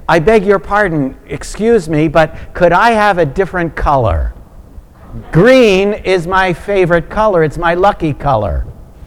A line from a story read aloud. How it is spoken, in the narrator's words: the first passenger shouts over the wind